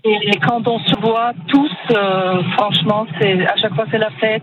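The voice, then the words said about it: Slight Eastern European accent. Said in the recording (French): “vous avez une petite pointe d'accent ... vous venez de l'Est ... je suis d'origine biélorusse”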